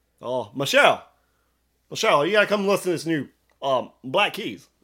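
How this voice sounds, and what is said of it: Barack Obama impression. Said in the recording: “I wish I could do an impersonation of him ... Obama”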